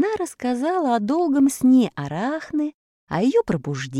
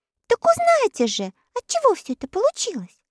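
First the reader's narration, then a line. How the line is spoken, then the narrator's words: Girl exclaiming. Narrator (Russian): воскликнула девочка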